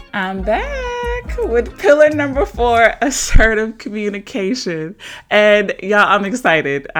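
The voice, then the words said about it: Giddy excited voice. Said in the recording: “hear the giddy in my voice”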